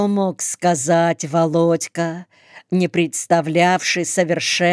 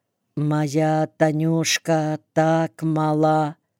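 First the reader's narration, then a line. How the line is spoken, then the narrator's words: Very quiet. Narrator (Russian): совсем тихо добавил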